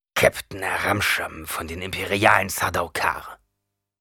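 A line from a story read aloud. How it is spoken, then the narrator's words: Man growling. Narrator (German): knurrte der Mann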